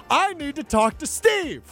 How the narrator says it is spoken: this man is behind me still yelling

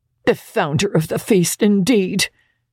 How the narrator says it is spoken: cried Mrs

